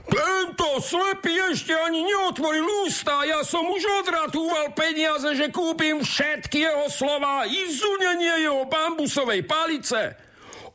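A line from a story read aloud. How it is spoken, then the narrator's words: Shouting. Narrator (Slovak): kričí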